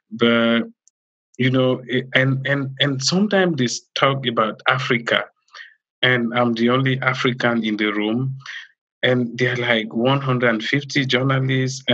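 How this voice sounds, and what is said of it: African-accented English. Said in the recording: “this African accent that people find it hard to really understand”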